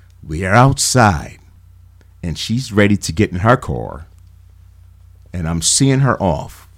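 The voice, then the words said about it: Lowered, quiet confiding voice. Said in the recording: “Get close to the radio. I'm gonna lower my voice”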